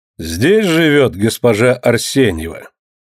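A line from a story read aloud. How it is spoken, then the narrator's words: Loud male voice asking. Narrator (Russian): Громко спрашивает мужской голос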